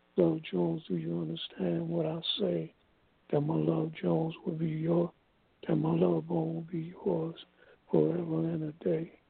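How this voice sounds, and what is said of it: Very hoarse, strained voice. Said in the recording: “forgive my voice. As you can hear, it's very hoarse ... it's like kind of very difficult for me to get the words out, so I'm like struggling”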